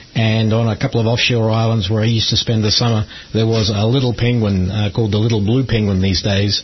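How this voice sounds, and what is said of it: Australian accent. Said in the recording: “as you can probably tell from my accent, I'm not from Kansas City originally. ... down in Australia, I grew up in Adelaide”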